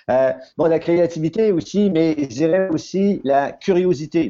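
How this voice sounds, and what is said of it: New Brunswick French accent. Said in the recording (French): “Je vais retrouver mon accent, ce sera pas long... on vient tous les deux du Nouveau-Brunswick”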